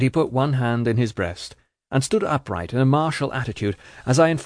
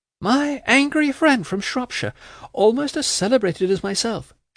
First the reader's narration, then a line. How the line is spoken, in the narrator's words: she exclaimed